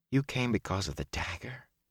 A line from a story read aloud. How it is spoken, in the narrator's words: Matt said quietly